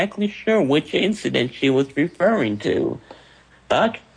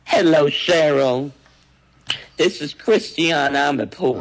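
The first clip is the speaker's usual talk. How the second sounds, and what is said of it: Christiane Amanpour impression, affected accent. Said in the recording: “she said it with that accent she uses, that fake accent”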